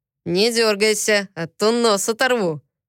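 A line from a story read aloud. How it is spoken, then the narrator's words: Playful growl. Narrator (Russian): шутливо рыкнул я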